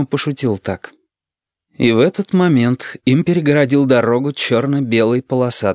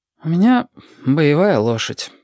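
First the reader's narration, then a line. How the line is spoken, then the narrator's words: Sighing. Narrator (Russian): почему-то вздохнул Юрик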